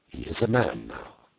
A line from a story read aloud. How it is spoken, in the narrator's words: she replied quietly